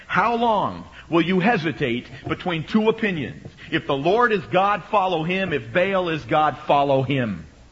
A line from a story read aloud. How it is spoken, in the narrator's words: he shouted to them